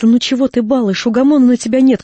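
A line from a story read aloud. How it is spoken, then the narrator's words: Angry shout. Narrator (Russian): крикнула она сердито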